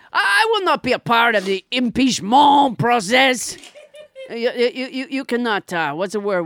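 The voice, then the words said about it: Inconsistent put-on French accent impression. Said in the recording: “French Trump, I love how you seem to find your accent as you go along.”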